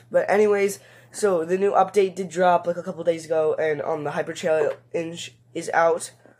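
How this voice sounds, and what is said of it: Voice sounds a bit off. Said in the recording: “I'm still recovering from being sick, so sorry if my voice is a bit off.”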